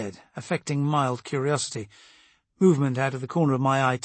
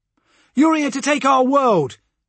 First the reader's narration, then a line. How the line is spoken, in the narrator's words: the leader shouted